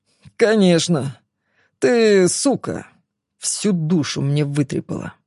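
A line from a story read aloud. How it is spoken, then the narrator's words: Through clenched teeth. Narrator (Russian): процедил он сквозь зубы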